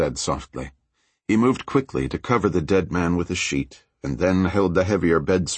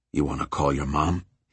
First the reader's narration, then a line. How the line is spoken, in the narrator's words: he asked softly